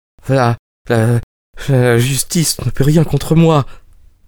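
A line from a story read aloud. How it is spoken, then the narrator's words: Stammered. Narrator (French): bégaya-t-il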